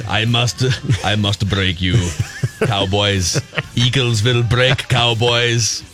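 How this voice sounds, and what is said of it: Put-on Russian accent. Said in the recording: “had a Russian accent.”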